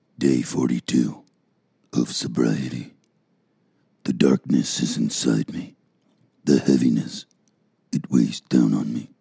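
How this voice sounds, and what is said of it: Disturbing, very deep dramatic voice. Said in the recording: “I just discovered I can do that disturbing voice ... the deeper a man's voice is”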